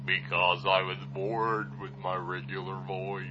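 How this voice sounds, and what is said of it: Usual voice. Nothing is said of it.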